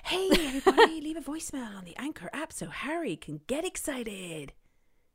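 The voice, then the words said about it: Enthusiastic radio presenter voice. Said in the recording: “say it enthusiastically ... Is that your radio voice?”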